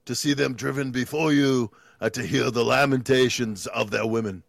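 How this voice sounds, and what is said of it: Arnold Schwarzenegger impression, Austrian accent. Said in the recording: “do the voice of another person ... Austrian accent ... Arnold”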